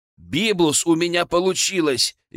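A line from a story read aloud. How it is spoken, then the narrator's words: Cheerful. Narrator (Russian): весело сообщил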